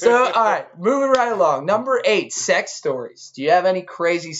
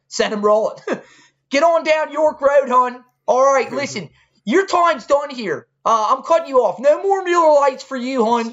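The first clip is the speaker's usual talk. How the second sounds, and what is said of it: Put-on Baltimore accent. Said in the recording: “imitating me right now ... I'm doing Baltimore, hon ... It's terrible ... I think my Baltimore accent's getting better”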